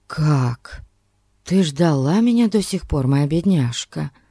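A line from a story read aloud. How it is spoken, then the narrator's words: Whisper. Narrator (Russian): прошептал Анзолетто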